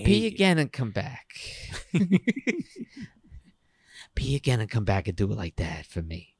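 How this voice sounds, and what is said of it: Partial impression of a mother. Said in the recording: “I'm kind of doing my mom impression, kind of, a little bit... I'm not fully into it”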